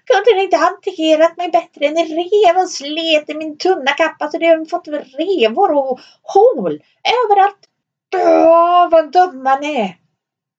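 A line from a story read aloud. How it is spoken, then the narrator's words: Shrill squeaky scream. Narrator (Swedish): När dvärgen hade hämtat sig från första förskräckelsen skrek han med sin pipiga röst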